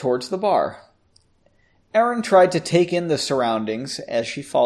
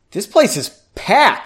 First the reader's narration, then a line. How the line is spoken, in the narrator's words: exclaimed